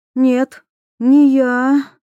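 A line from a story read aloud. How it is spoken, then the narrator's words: Breathed out, girl. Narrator (Russian): выдохнула девушка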